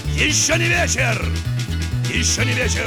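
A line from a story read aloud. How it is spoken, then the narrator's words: Captain shouting. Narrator (Russian): крикнул капитан на абордаж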